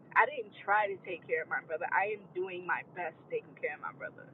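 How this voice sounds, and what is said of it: Emotional, strained voice. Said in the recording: “I'm sorry, y'all, for my voice. I am a little emotional.”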